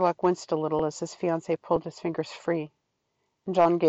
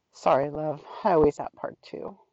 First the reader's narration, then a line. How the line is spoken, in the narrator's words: he murmured